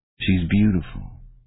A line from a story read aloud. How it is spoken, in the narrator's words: he murmured